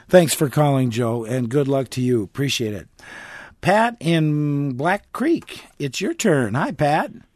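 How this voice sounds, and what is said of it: Hoarse voice. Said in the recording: “a little cold today ... A little hoarse, a little hoarseness here.”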